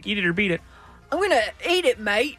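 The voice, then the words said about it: Put-on Australian accent. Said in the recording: “You could use an Australian accent if you like.”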